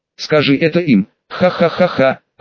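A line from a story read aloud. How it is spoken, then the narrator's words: Loud laughter. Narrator (Russian): расхохотался Адам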